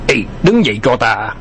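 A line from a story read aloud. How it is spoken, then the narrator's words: Furious gritted voice. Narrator (Vietnamese): Mạch Vân Phi tức giận đến xanh mặt gằn giọng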